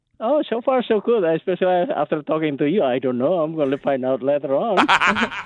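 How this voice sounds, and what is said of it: Speaks with a noticeable accent. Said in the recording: “I can hear the accent”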